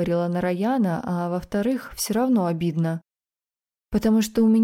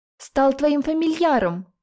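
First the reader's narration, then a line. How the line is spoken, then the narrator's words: Shout. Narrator (Russian): выкрикнул Саламандр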